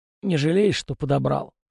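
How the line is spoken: Hoarse, mouth full. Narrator (Russian): хрипит он, глотая тушенку

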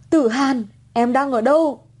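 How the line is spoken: Shouting. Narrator (Vietnamese): Anh hét lên

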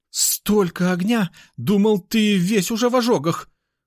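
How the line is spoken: Relieved exhale. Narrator (Russian): Он с облегчением выдохнул

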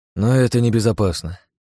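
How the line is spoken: Sighing. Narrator (Russian): вздохнул

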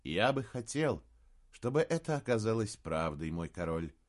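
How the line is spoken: Said sadly. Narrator (Russian): сказал Эолейр, печально

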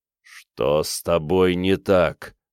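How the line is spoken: Growling. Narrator (Russian): прорычал

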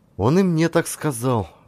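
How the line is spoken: Sighing. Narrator (Russian): вздохнула

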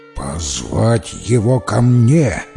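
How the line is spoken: Tsar's stern command. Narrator (Russian): грозно приказал царь

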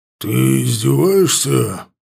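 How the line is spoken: Growl. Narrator (Russian): зарычал Лотар

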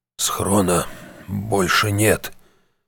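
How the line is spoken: Guilty tone. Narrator (Russian): в голосе Шептуна прозвучали виноватые нотки

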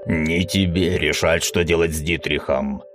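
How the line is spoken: Growling. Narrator (Russian): прорычал Мизраэл

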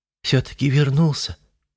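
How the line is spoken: Relieved exhale. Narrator (Russian): облегченно выдохнула она

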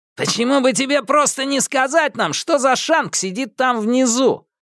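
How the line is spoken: Shouting. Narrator (Russian): крикнул Галли

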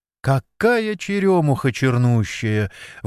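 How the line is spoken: Exclaiming. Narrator (Russian): воскликнула Надежда

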